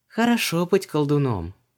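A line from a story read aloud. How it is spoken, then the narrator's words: Envious sigh. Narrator (Russian): завистливо вздохнула Ванесса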